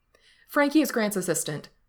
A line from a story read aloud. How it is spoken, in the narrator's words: Gerard blurts out